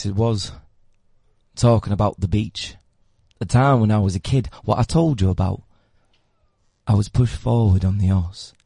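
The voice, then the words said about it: Southern Yorkshire accent. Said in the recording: “I can give you my accent ... it's basically a Southern Yorkshire accent, which is quite fun.”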